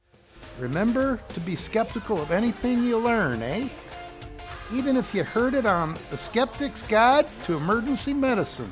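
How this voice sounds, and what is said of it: Put-on Upper Peninsula Michigan accent. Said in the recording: “you've been hearing my standard lower peninsula Michigan accent, so I think I'll go for the upper peninsula”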